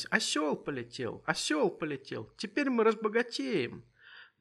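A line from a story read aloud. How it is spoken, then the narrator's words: Excited shouting and laughing. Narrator (Russian): закричали, засмеялись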